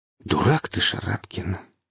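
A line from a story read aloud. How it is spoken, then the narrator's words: Exhaled words. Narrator (Russian): выдохнул Чаушев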